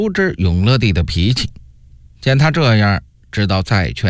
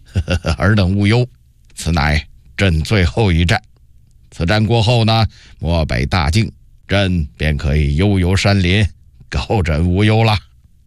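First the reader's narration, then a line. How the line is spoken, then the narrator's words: Smiling reassurance. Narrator (Chinese): 永乐帝知其心意，于是笑着说道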